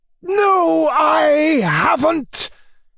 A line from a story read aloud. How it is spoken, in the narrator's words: he shouted, trembling